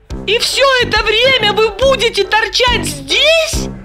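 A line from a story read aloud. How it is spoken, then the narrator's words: Tearful babbling. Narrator (Russian): Со слезами на глазах пролепетала Липочка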